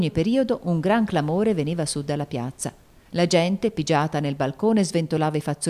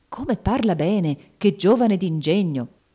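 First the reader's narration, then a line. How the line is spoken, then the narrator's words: Exclaiming close to ears. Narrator (Italian): Il duca esclamava all'orecchio dei vicini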